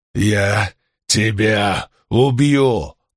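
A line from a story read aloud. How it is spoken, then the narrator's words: Growled. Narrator (Russian): прорычал он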